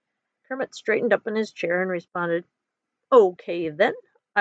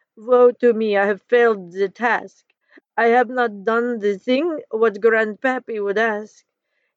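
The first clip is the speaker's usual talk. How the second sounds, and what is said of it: Bad put-on French accent. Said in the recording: “he said with a terrible French accent.”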